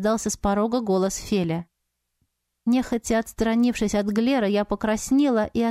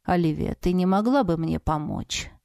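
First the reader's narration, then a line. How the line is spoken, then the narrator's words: Quiet question. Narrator (Russian): тихо спросил маг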